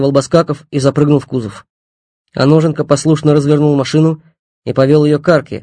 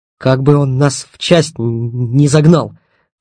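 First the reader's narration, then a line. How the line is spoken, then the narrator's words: Hissing through teeth. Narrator (Russian): прошипел сквозь зубы Стасюк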